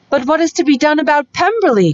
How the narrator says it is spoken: cried Mrs

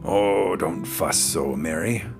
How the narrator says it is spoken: grumbled Mr

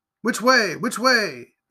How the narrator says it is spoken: they both cried in a breath

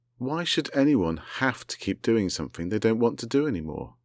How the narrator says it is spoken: Vanilla asked them

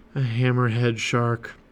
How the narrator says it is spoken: he breathed

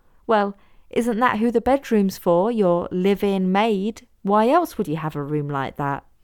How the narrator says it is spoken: Hazel laughed

